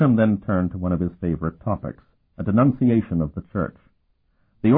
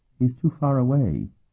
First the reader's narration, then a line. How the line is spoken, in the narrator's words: she murmured